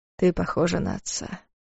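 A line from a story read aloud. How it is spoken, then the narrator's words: Said quietly. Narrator (Russian): тихо сказал Дарс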